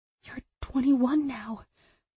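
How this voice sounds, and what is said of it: Woman whispering. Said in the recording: “Why was she whispering?”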